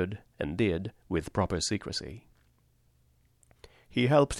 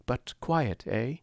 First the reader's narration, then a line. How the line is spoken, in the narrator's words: urged anxiously